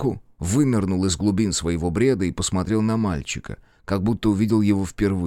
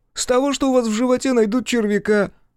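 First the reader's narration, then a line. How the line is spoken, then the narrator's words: Laughing boy. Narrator (Russian): засмеялся пацан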